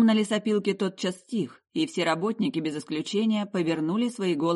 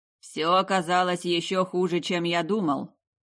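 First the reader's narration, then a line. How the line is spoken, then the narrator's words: Grumbling. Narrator (Russian): проворчал главный артист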